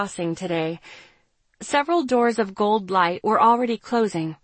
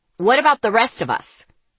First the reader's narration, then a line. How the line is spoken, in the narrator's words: Davis barked